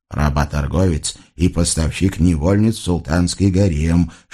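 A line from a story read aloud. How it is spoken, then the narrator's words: Whispered reminder. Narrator (Russian): шепотом напомнил визирь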